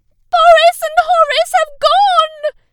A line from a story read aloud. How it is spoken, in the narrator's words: screamed